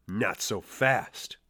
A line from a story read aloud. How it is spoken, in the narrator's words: said Miss Girk